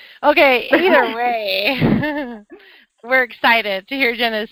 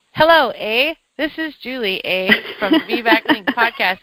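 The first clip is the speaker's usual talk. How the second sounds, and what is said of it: Put-on Canadian accent. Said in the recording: “I'm practicing my Canadian accent.”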